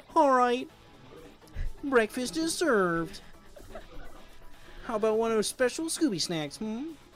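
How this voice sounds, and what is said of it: Imitates cartoon character Shaggy's voice. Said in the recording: “my best Shaggy impression”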